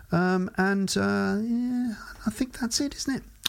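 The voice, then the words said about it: Voice rising in pitch. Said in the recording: “I don't know why my voice is going up like that, but it is.”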